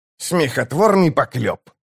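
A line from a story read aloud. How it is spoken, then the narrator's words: Scoffing snort. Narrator (Russian): фыркнул чародей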